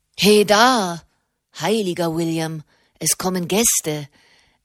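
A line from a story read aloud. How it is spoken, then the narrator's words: Called in perfect English. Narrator (German): rief eine Stimme in perfektem Englisch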